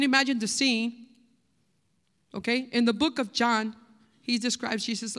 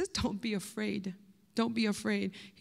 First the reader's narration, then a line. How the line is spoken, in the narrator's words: says gently